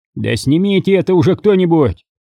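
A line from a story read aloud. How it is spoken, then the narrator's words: Irritated shout. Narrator (Russian): раздраженно крикнул своим ребятам Митрофанов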